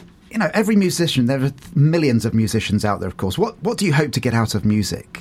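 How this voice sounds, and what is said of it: Usual voice. Nothing is said of it.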